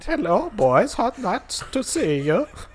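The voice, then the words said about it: Put-on Danish accent. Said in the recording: “He does sort of sound like someone named Lars. ... he's got a Danish accent.”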